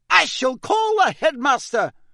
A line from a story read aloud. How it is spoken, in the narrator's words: shouted Professor McGonagall